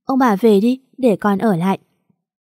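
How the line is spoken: Gentle smiling girl. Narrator (Vietnamese): Con bé mỉm cười hiền lành, rồi nói

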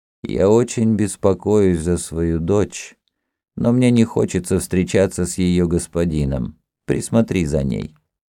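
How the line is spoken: Quiet. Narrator (Russian): Гедеон тихо сказал Тафет

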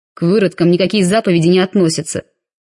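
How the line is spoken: Barked. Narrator (Russian): рявкнул водитель

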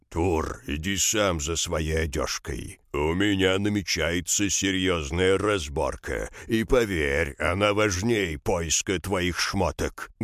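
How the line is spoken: Rough mumble. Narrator (Russian): грубо пробубнил Ставр

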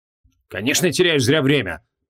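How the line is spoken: Grumbled. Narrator (Russian): проворчал Креол

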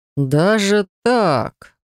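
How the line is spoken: Drawl. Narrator (Russian): протянул Алистер

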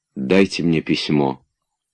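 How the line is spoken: Quiet. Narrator (Russian): тихо сказала она

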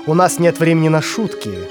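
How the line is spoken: Angry teacher, through teeth. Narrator (Russian): процедил сквозь зубы учитель

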